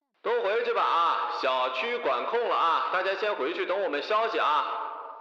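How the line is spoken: Shouting. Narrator (Chinese): 他们冲里头喊

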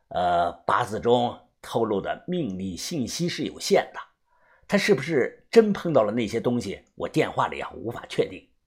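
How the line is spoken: Calm, detached. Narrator (Chinese): 他淡淡的又说

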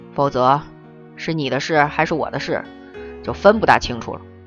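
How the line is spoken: Low hushed voice. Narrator (Chinese): 他压低嗓子说

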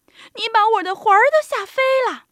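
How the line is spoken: Old woman crying out. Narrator (Chinese): 瘦小的老妇人喊起来

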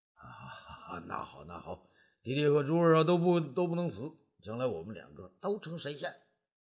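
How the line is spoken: Laughing. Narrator (Chinese): 东方朔笑了起来

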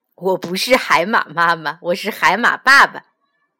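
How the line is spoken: Laughing. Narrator (Chinese): 一边笑着说

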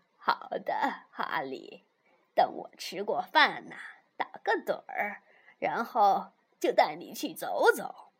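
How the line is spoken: Grandmother, laughing. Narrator (Chinese): 奶奶笑着说

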